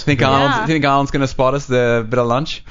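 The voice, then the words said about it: A noticeable accent. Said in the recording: “I love your accent.”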